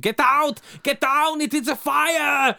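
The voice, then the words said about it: Shouted imitation of another person's voice. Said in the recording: “my best Arnie voice impression ... scream”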